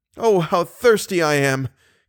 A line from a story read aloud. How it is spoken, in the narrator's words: he cried in delirious accents